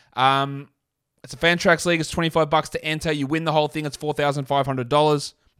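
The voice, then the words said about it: Non-American accent. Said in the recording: “Americans can't always understand my accent.”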